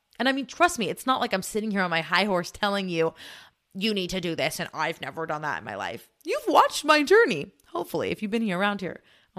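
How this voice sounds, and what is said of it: Talking very fast, tripping over words. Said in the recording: “I'm talking so fast. I'm jumping over my words, like leapfrogging over my words.”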